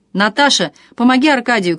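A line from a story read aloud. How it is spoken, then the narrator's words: Shouting. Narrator (Russian): крикнул Егор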